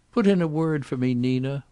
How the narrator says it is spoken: Wallie begged

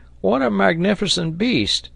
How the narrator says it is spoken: cried Neb

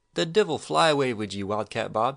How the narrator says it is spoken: she cried, but she was smiling

